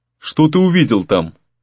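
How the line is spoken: Plain. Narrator (Russian): снова спросил Гризли

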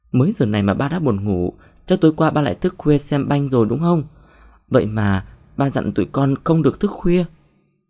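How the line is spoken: Bursting into cackling laughter. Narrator (Vietnamese): Thu bật cười khanh khách

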